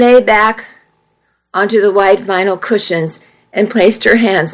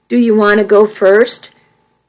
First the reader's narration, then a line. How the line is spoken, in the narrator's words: Kirk asked Jacob